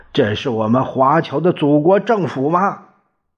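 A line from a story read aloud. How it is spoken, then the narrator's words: Loud shout. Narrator (Chinese): 苏军谦大声的喊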